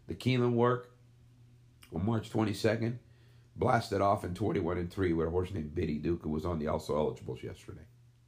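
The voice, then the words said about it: Tired voice giving out. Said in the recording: “my voice is running out. I've gone on and been talking for 25 minutes.”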